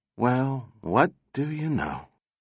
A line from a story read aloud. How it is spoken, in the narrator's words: Donovan said softly